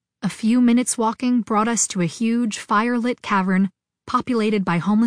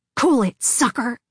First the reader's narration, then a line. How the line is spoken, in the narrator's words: the arm's owner whispered furiously